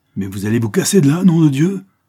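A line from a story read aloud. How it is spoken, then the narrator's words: Furious yell. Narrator (French): hurlai-je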